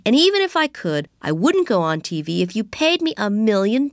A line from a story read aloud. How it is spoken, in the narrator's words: I cried